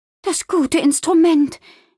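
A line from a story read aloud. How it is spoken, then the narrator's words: Worried exclamation. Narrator (German): rief sie besorgt aus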